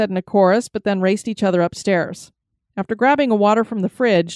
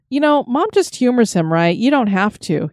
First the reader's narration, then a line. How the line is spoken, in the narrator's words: he chuckled